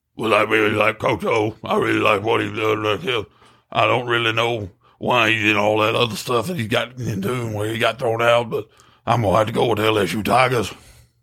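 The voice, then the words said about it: Throat-straining imitation of another person's voice. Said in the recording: “my best Coach O impression ... That hurt my throat.”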